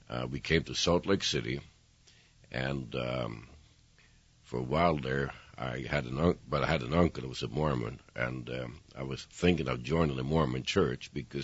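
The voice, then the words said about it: Swedish accent. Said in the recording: “that great accent of yours ... I happened to be born in Sweden”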